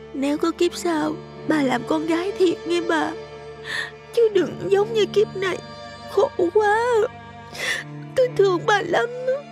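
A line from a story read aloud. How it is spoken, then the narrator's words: Sobbing, crying. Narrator (Vietnamese): Thủy vừa sụt sùi khóc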